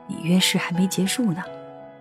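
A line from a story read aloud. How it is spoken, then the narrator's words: Quiet reminder. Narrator (Chinese): 小声提醒道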